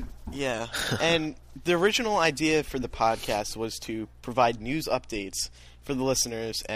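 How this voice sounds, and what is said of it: Usual voice. Nothing is said of it.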